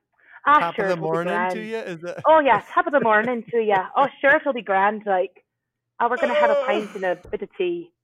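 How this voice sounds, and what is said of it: Poor put-on Irish accent. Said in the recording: “Do you have an Irish accent you can offer here? ... if an actual Irish person heard me, they would just be so embarrassed for me.”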